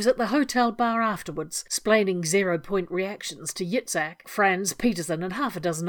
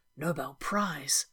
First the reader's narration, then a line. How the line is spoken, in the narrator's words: the whispered words